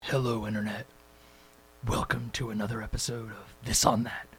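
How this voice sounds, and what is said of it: Dark superhero voice. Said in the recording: “that was my dark superhero voice ... did that little dark voice”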